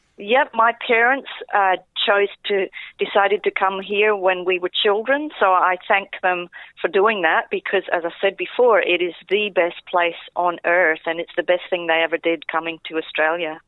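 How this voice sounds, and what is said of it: Slight Scottish accent. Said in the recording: “I did hear a bit of an accent ... I'm from Scotland. I'm actually from Scotland. ... I thought there was a bit of South African there.”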